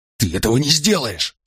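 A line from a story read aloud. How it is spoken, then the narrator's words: Horrified hiss. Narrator (Russian): с ужасом зашипел он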